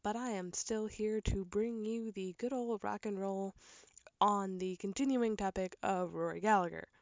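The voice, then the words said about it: Voice sounds a little off. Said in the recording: “I sound a little different, I was sick this week, so bear in mind my voice is a little off”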